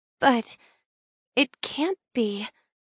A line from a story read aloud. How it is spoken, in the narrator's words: I mumble, in shock